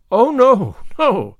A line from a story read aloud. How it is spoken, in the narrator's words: cried Anne, blushing so guiltily